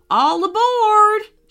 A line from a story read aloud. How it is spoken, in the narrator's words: shouted the frog